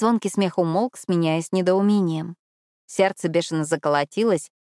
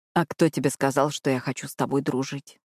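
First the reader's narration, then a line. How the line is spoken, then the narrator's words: Whisper in the ear. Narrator (Russian): прошептал Итан мне на ухо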